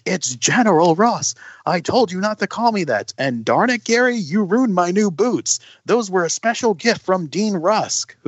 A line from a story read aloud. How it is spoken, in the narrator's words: he screams